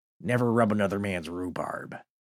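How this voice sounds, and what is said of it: Jack Nicholson as the Joker impression. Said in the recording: “I had to think of something Jack Nicholson actually says ... impersonations ... it's Jack Nicholson is the Joker”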